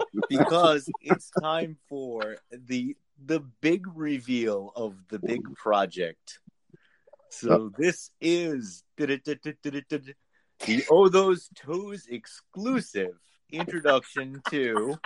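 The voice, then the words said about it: Announcer voice. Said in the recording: “my announcer voice”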